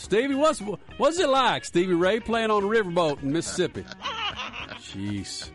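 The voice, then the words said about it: Exaggerated Southern American accent. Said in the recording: “I was probably like talking like this in my old southern accent. I just couldn't get rid of it.”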